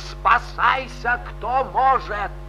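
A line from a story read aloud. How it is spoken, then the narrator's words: Wild scream. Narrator (Russian): Акцизный закричал диким голосом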